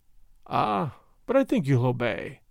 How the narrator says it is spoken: he added, with that funny dry chuckle of his

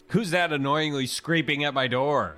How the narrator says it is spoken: I shout out

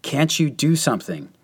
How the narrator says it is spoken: the major exclaimed excitedly above the blasts

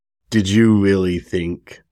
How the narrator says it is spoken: Kasuma sneered, disgusted

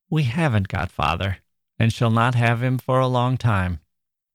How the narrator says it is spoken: Joe said sadly

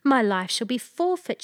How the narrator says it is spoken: she cried

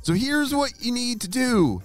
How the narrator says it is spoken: shouted Ava

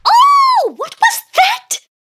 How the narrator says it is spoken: screeched the banquet guest

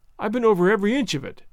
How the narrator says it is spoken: said poor Tom

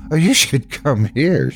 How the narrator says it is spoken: she said, laughing

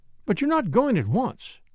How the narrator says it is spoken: cried Flora

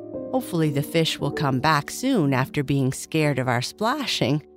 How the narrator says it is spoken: Kai Kai said with a laugh

